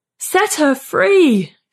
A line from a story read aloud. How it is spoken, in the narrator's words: Jonathan screams